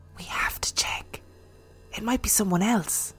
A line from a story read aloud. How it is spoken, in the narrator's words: Serena whispered